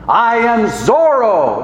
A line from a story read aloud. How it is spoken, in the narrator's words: shouted Lance